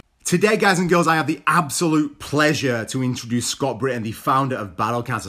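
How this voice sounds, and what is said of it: Strong northern English accent. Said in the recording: “that northern accent, really nice and strong ... you sound northern.”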